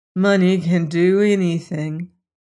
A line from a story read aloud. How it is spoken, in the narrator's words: stated gloomily